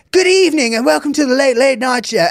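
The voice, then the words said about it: Exaggerated proper English accent. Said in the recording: “he puts on a more proper English accent than he ever did in England”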